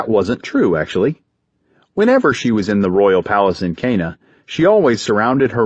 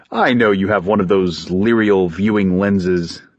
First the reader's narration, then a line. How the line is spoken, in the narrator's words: Talos said